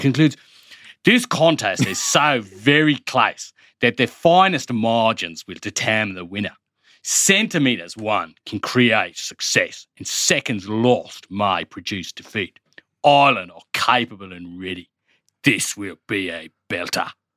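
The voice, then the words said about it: Australian accent impression of another person. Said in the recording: “That was pretty good. ... brilliant. ... just a good Australian accent, but a good Matt Williams. ... You've just done an impression.”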